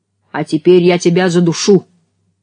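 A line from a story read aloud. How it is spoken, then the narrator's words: Dead man shouting. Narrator (Russian): поднялся мертвец и крикнул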